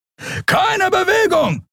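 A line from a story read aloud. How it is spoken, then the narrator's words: Shouting. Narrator (German): schrie ein Weißmantel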